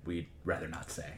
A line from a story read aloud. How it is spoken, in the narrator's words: sort of whisper